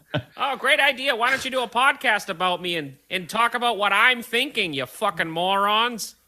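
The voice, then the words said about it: Impression of another podcast guest. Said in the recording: “lean into fucking doing an impression of me”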